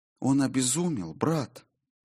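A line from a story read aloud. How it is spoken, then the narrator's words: Whispered. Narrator (Russian): прошептала Солей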